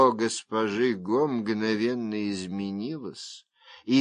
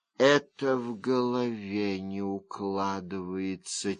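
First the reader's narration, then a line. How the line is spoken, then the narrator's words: Quiet. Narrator (Russian): тихо сказала она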